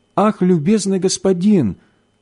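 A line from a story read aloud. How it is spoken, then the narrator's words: Frightened boy speaking. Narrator (Russian): промолвил мальчик испуганно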